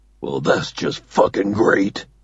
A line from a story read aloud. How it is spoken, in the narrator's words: Doug mutters